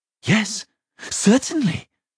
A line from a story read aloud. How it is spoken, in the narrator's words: he said happily